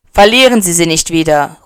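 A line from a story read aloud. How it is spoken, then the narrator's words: Calling after her. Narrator (German): ruft er ihr nach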